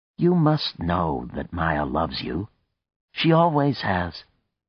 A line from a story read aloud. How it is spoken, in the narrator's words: said calmly